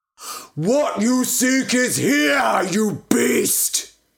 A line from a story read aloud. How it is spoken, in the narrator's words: he bellowed